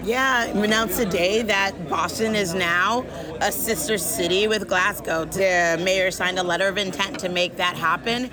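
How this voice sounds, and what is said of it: Strained, worn-out voice. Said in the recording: “if you hear, my voice is still not fully recovered from screaming”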